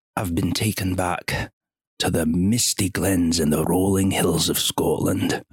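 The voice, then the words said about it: Put-on Scottish accent, lowered voice. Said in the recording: “is that offensive that I just did that accent? ... No, it's actually quite good. ... It's also the voice always lowers, doesn't it?”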